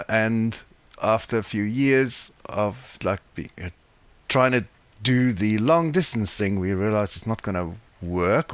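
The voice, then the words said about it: South African accent. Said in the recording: “as you probably can hear from my accent where I'm from ... South Africa”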